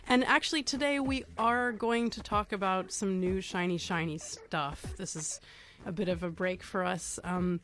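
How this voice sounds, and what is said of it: Slightly hoarse, congested voice. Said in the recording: “I am actually suffering from a very non-virtual head cold, so excuse me if I'm a little bit hoarse.”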